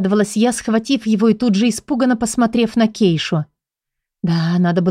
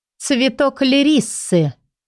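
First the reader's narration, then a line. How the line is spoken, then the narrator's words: Woman speaking through teeth. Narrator (Russian): процедила женщина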